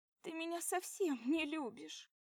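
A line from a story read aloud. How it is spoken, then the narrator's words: Sobbing. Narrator (Russian): всхлипывает Светка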